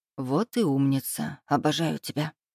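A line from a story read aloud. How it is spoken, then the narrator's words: Whisper. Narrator (Russian): зашептал Эдик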